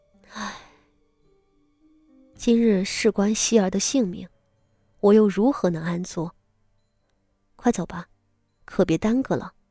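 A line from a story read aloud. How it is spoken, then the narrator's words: Sighing. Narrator (Chinese): 傅锦衣叹了一口气道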